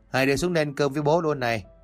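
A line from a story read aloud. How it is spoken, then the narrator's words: Raised, calling voice. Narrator (Vietnamese): ông Tâm cao giọng nói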